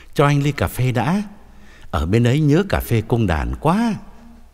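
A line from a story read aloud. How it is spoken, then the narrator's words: Smiling. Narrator (Vietnamese): ông mỉm cười bảo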